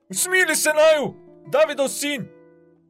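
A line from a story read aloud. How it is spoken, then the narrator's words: Two men crying out. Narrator (Slovenian): dva slepa vpila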